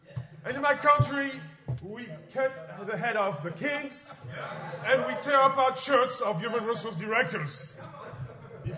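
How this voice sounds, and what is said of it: French accent. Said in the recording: “I'm from France, of course, as you know, with my accent.”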